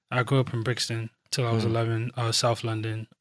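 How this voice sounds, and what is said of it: Slight London accent. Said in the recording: “I catch it here and there, a little accent.”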